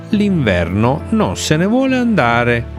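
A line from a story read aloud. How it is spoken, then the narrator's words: Exclaimed with chattering teeth. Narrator (Italian): esclamò Nocciola, battendo i dentini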